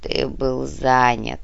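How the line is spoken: Muffled answer. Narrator (Russian): глухо ответил повелитель

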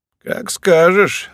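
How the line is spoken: Sighing. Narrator (Russian): вздохнула она

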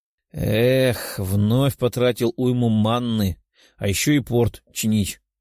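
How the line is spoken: Weary sigh. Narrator (Russian): Демон устало вздохнул

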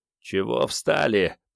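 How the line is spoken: Muttered. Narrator (Russian): пробормотал Вано

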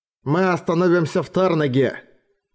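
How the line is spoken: Grumbling. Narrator (Russian): проворчал Орик

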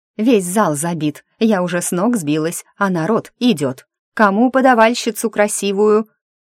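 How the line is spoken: Shout to the hall. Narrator (Russian): она крикнула залу

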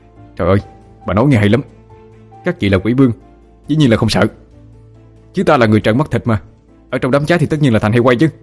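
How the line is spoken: Angry shout. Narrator (Vietnamese): Trong lòng Phượng đã điên cuồng chửi rủa, miệng quát lên

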